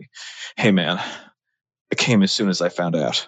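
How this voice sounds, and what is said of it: Character voice of an aroused man. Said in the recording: “this is my impression of a guy who's really aroused by tragedies responding to a tragedy”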